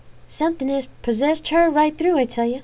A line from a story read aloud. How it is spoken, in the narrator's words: Ophelia said, shaking her head sadly